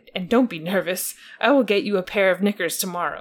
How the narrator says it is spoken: he cried

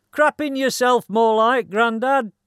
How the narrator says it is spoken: shouts

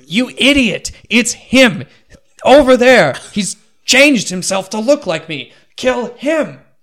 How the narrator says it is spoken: The Lich screams

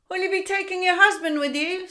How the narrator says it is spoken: dared to shout

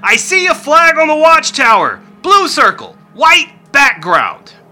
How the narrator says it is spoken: The voice from above yells out again

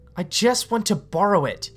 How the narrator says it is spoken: she yells

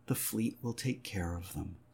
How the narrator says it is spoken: Leah said soothingly

